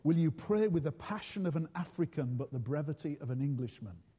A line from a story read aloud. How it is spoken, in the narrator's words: I whispered in his ear